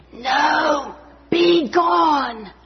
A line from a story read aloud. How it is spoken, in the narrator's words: whispered